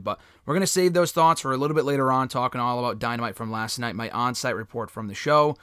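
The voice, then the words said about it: Hoarse, strained voice. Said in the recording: “My voice is still a little bit shot, so you got to bear with me.”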